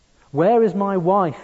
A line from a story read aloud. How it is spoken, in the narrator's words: screamed